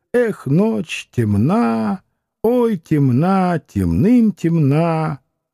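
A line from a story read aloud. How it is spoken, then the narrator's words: Humming outside window. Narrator (Russian): За окном мурлыкали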